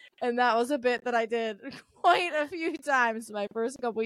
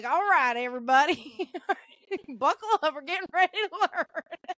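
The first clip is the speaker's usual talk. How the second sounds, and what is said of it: Thick Southern American accent. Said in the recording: “a very probably offensive accent ... a really thick Southern accent”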